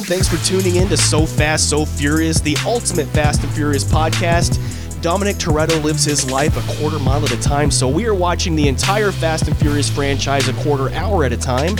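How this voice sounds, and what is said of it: Congested voice from a cold. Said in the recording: “you sound like a completely different person ... You do sound a little, yeah, it's weird. Are you getting over a little cold? ... I might just sound weird doing it.”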